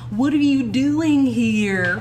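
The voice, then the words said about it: Drawn-out California accent. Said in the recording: “California is like this. Like, kind of like that. ... Drawn out. It is a weird similarity to southern.”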